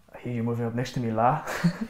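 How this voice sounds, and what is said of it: Half Scouse, half Danish accent. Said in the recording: “a kind of half Scouse, half Danish accent.”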